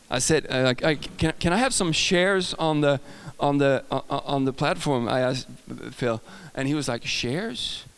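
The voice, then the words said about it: Swedish accent. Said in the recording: “my Swedish accent.”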